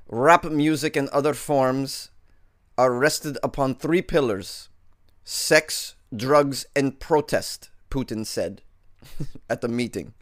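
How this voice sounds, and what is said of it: Put-on Russian accent. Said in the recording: “Should I continue my Russian accent throughout the story? I feel like I should.”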